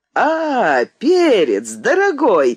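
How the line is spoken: Joyful exclamation. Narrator (Russian): радостно вскричал менеджер

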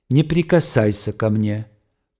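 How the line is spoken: Calm, menacing female voice. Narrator (Russian): произнесла она спокойно и страшно

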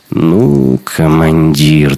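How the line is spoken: Annoyed drawl. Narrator (Russian): досадливо протянул Шибанов

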